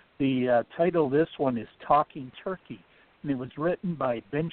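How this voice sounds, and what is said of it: Usual voice. Nothing is said of it.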